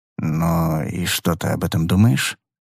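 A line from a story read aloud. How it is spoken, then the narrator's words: Barely audible mutter. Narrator (Russian): пробормотал еле слышно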